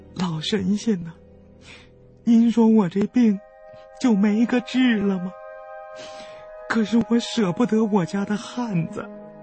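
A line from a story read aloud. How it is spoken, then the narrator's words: Woman, tearful pleading. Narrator (Chinese): 那女子哭丧着脸问道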